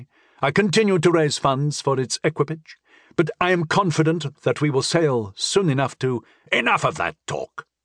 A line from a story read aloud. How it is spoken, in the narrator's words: Rad said sharply